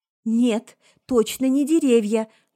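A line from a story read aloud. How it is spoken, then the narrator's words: Trembling voice. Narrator (Russian): дрогнувшим голосом ответила Заль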